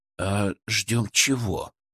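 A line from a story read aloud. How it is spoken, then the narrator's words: Quiet question. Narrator (Russian): тихо спросил Величко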